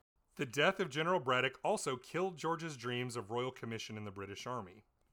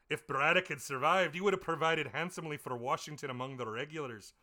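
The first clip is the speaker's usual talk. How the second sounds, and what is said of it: Cheesy put-on Scottish accent. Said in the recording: “Dinwiddie is this paunchy Scotsman ... all of my cheesy accents”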